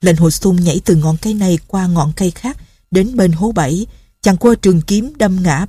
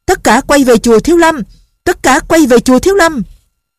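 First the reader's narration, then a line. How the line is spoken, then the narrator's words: Loud shout. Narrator (Vietnamese): Chàng liền lớn tiếng la lên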